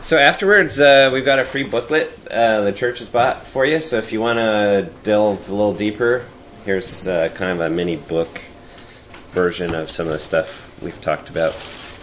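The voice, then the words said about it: Voice rough from a cold. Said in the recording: “Apologize for my voice. I got a cold”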